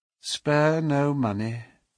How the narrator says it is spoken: she said in a dead, even tone

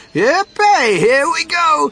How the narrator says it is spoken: And Grandpa Joe shouted

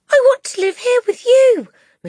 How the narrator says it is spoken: Matilda cried out

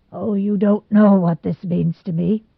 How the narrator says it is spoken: he said brokenly at last

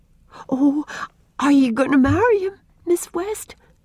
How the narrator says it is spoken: asked Una eagerly

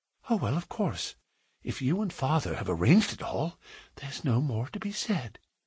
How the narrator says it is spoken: she whispered, with her cheek against his broad breast

